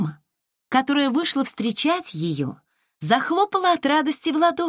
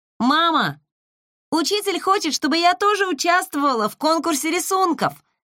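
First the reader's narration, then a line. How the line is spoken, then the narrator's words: Excited shout. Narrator (Russian): закричала, как только пришла домой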